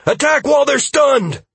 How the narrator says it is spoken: I shouted

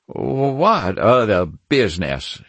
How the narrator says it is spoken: he stammered

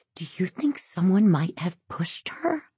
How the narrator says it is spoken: Lauren whispers

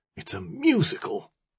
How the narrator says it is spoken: someone whispered

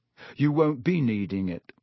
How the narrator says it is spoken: he said

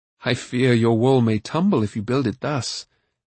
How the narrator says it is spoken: Taran said with a kindly laugh

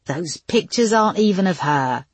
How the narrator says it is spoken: he sneered

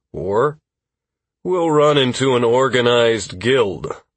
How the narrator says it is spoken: Constantine said with a sigh

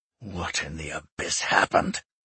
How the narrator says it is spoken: he growled

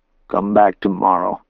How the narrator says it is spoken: he croaked

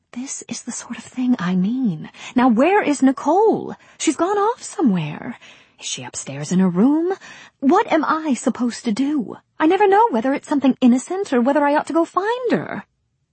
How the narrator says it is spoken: The baby whispered quickly

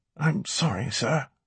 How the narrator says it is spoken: Alex whispered

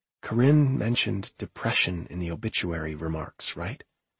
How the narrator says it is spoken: Her voice was a whisper, and it vibrated when she said

